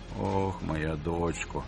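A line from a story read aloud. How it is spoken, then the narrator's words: Wretched old man groaning. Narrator (Ukrainian): застогнав нещасний старий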